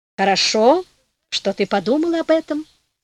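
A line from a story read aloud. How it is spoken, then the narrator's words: Plain. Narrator (Russian): сказала фея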